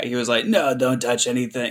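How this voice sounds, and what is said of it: Imitates another person's voice. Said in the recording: “Your Tony Shalhoub sounds a lot like my Gary Sinise impression.”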